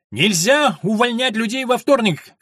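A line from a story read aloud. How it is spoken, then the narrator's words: Shouting. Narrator (Russian): кричал он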